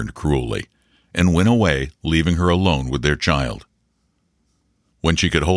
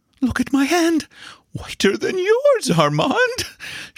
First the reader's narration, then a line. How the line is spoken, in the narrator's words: she laughed hysterically